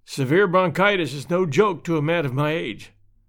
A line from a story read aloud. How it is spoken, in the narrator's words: said Mr